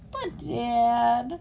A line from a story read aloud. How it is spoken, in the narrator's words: Willie whined